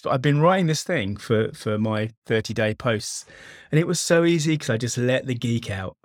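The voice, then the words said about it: Excited, enthusiastic delivery. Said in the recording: “Can you hear the excitement in my voice?”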